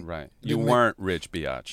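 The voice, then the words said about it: Imitates another person's voice. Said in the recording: “that was a horrible impression of me ... your vocal bitch cadence”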